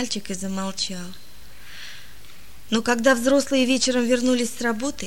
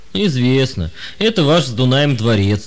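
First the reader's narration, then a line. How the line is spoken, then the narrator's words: Old man laughing. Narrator (Russian): рассмеялся старик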